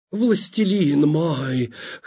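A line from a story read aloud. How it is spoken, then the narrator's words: Hoarse growl. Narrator (Russian): хрипло рычала она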